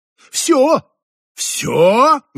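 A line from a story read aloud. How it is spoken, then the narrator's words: Father roaring. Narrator (Russian): взревел папа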